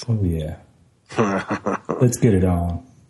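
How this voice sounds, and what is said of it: Deep, sexy voice. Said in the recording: “the deep, deep, sexy voice”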